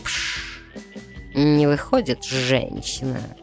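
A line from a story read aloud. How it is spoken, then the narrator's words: Contemptuous vampire hiss. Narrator (Russian): презрительно прошипел вампир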